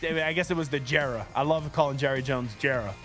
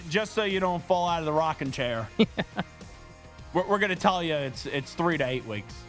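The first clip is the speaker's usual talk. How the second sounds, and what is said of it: Put-on Southern US accent. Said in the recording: “I don't know why I went into like a southern accent there.”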